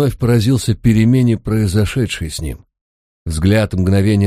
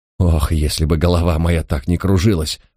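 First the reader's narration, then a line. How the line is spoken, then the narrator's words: Confused mutter. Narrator (Russian): пробормотал он с неожиданной растерянностью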